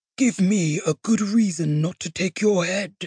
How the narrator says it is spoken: Thrall muttered

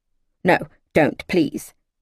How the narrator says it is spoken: Miss Fawthorne snapped

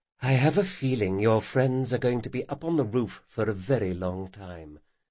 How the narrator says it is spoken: she murmured

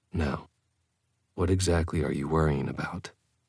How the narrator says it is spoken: I murmured

